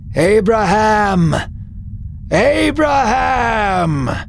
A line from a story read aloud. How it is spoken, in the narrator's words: the voice cried